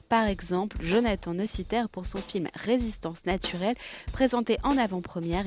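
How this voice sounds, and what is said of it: French spoken with English accent. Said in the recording (French): “mon accent anglais”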